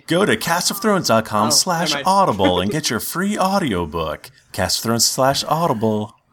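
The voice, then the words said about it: Polished radio announcer voice. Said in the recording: “Such a radio voice.”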